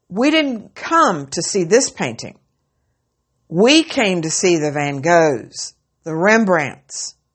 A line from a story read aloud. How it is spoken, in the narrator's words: Another voice shouted angrily